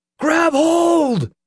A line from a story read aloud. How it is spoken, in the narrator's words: Nick screamed